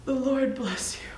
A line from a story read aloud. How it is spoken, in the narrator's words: whispered gently